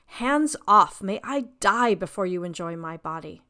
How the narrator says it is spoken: Narcissus, however, was appalled, exclaimed

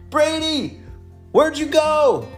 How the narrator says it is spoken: Ella shouted

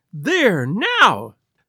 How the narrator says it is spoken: she cried, looking defiantly at Lestrade

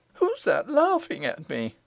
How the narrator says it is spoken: said the princess, trying to keep in her sobs and running too fast for her grazed knees

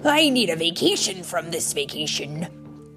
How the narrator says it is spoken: Quasi muttered

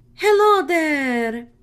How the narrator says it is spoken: Perry cried

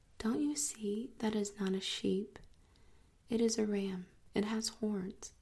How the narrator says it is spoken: My little friend said gently and indulgently

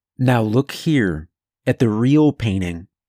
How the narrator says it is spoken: said

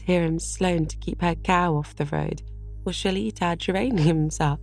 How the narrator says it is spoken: laughed Diana

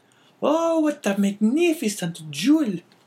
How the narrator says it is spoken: cried the astonished woman

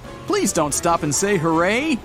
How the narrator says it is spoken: A cycler passes by, shouting on the go

